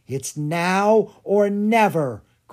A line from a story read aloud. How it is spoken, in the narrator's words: Grace cried